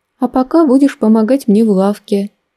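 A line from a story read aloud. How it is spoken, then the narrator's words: Forced cheerfulness. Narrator (Russian): нарочито бодро предложила мама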